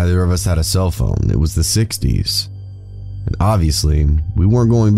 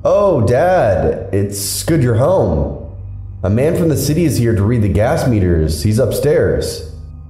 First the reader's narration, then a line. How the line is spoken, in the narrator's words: She called out loudly into the house